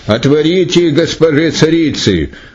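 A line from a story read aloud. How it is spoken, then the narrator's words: Servants shouting. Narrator (Russian): царские слуги закричали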